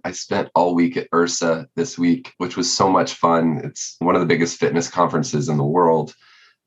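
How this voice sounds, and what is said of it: Hoarse, nearly lost voice. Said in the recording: “I apologize to everyone just a little bit. My voice is about completely gone.”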